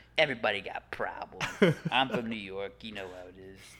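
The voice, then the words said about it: Exaggerated weird New York accent. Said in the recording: “Tom Hardy. ... His accent in that is so weird.”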